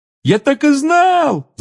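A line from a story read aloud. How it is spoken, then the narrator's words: Yelled. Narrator (Russian): завопил Рон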